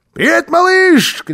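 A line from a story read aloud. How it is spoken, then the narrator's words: Shouted. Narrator (Russian): крикнул Карлсон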